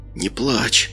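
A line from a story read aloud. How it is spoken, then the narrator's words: Barely audible. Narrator (Russian): едва слышно проговорил каббалист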